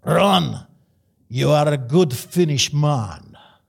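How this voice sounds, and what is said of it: Finnish accent, rolled R's, Russian-like. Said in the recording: “they roll their R's ... they speak with almost a Russian accent”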